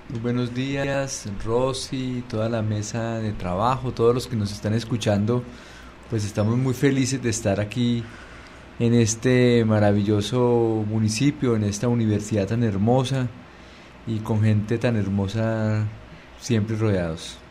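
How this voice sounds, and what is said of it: Colombian Spanish accent. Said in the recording (Spanish): “me encanta siempre el acento de los colombianos”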